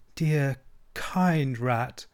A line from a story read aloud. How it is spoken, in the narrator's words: murmured Toad